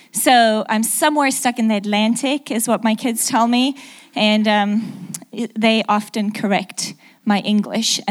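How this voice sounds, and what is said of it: Mixed South African, English, American accent. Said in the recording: “my accent is a little mixed up... I'm actually South African, lived in England for 6 years, and then moved to the middle of America”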